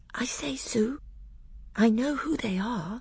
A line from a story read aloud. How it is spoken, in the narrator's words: Lucy whispered to Susan